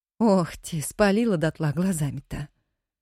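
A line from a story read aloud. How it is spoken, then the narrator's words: Silent laugh, old woman. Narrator (Russian): беззвучно смеялась старуха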